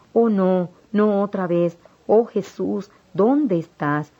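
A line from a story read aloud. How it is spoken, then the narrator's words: Exclaiming. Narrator (Spanish): Exclamé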